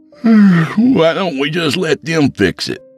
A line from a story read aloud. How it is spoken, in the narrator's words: Ryan asked, yawning